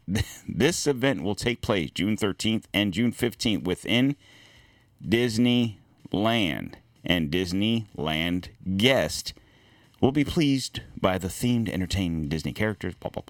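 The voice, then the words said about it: Slow, deliberate reading voice. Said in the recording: “Why am I slowly reading what I'm saying? ... Why am I reading that slowly?”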